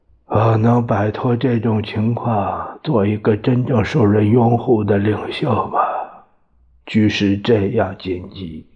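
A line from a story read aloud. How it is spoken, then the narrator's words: Sigh. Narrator (Chinese): 蒋介石叹息一声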